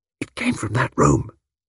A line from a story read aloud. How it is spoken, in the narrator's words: whispered